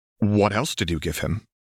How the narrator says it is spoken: Alexandra asked in a much sharper tone

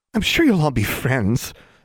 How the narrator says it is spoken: exclaimed one girl, mimicking Gwendolyn with an exaggerated, syrupy voice

